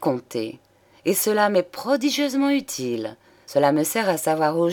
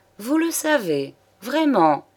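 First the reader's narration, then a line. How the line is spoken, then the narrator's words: Sneered. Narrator (French): ricana Juliette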